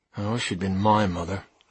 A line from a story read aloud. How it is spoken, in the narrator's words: I muttered